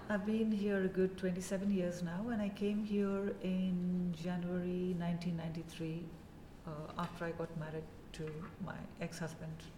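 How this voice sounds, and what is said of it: Indian accent with a twang. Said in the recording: “I'm assuming you're not putting that accent on, right? ... they think I have a very Indian accent ... it's not very Indian, you've got the twang”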